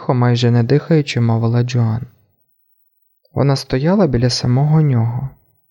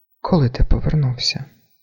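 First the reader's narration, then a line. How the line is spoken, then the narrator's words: Quiet question. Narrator (Ukrainian): так само тихо спитала вона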